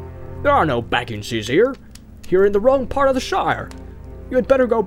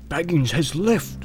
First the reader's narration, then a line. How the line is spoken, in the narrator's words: he answered with a whisper